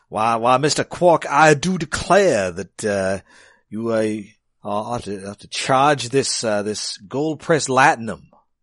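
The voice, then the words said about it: Cajun Southern-French accent impression. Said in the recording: “It's definitely an accent. ... It's kind of halfway between Southern and French, so I'm thinking Cajun. ... There's definitely a little bit of Southern to it. ... It's a weird accent.”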